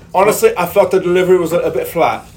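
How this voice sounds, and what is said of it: Bad put-on British accent. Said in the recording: “My terrible British accent there.”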